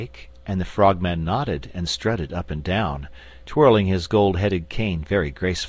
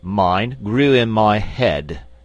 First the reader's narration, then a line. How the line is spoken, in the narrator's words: said the Frogman pompously